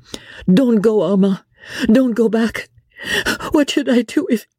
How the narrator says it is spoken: Her voice was choked in sobs

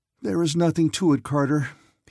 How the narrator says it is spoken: he said with a groan

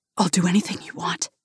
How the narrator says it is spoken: whispers, his breath coming in rapid gasps

